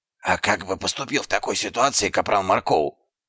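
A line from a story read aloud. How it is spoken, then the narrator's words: Whispered question. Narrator (Russian): шепотом спросил Дубинс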